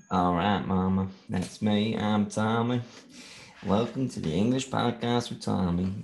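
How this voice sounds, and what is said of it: Poor put-on American Southern accent. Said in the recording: “my attempt at a deep South accent from America is terrible”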